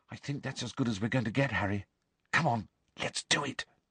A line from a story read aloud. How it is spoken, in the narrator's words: Hermione said quietly